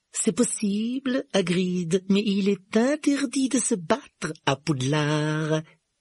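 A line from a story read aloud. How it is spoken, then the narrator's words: Smooth, silky retort. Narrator (French): répliqua Rogue d'un ton doucereux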